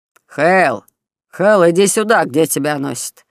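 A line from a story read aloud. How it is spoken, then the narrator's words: Harsh bark, master. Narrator (Russian): рявкнул хозяин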